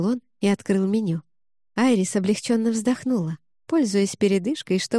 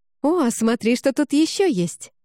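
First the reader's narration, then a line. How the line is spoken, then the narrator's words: Excited exclamation. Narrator (Russian): воскликнула Кэти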